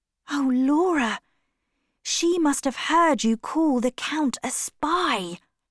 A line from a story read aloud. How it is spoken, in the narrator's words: whispered